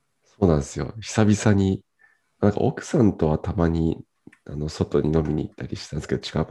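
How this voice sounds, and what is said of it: Hoarse, husky voice. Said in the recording (Japanese): “ちょっと今日声が。... 絶賛酒焼け中でございまして。... いついつもよりハハスキーな感じで。”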